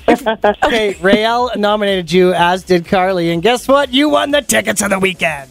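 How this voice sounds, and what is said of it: Smooth radio announcer voice. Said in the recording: “I just love his radio voice... It's my normal voice, too.”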